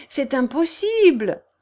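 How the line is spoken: Exclaimed happily. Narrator (French): s'écria Céleste, heureuse de la diversion

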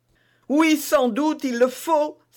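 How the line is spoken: Queen exclaiming. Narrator (French): s'écria la reine

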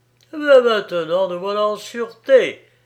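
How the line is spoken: Smug sneering laugh. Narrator (French): ricana-t-il d'un air satisfait

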